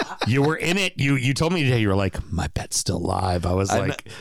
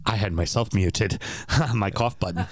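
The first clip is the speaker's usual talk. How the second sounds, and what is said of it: Sinister Bond-villain-like voice. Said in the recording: “Why do you sound like a Bond villain?”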